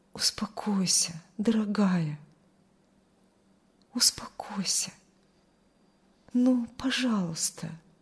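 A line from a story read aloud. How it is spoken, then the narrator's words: Soft whisper. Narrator (Russian): Он тихо шептал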